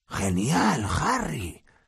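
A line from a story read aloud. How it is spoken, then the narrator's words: Whisper. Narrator (Spanish): susurró Ron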